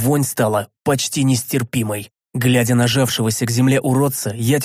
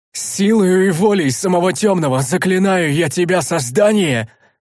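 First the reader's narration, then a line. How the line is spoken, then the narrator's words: Necromancer shouting. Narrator (Russian): Закричал некромант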